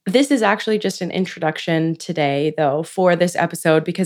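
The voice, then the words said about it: Raspy, lower-pitched sick voice. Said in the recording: “my voice is a little raspy, a little lower than usual ... I promise my voice does not always sound like this”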